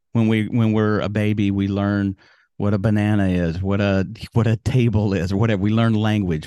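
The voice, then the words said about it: Southern American accent. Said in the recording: “I have a Southern accent because I grew up in Alabama”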